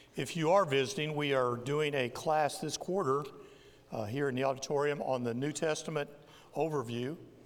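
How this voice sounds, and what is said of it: Strained, congested, fading voice. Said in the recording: “Sorry for the voice. The allergy season is getting me pretty bad, but I'll do my best to not fade completely.”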